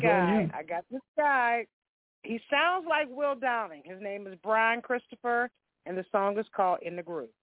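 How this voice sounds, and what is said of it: Slightly hoarse voice. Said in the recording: “Voice is a little hoarse.”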